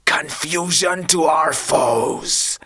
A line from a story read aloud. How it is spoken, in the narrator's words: hissed Victor